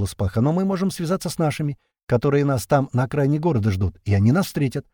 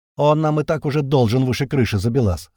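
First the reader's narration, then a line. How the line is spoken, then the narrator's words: Wry snort. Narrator (Russian): хмыкнул Винт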